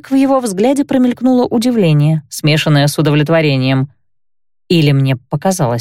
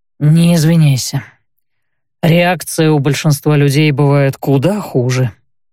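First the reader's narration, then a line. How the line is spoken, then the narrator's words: Calm. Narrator (Russian): спокойно, впрочем, произнес Кайл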